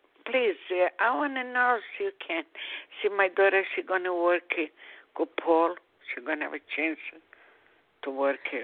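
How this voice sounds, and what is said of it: Strong foreign accent. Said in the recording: “Accent is very strong.”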